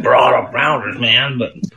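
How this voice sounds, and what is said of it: Put-on Iowa American accent. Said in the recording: “that's pretty good. That's pretty good Iowa accent.”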